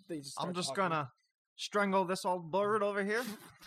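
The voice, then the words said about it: Attempted Australian accent, sounds Southern. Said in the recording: “everybody just gains an Australian affect to their voice ... I think that's a southern accent.”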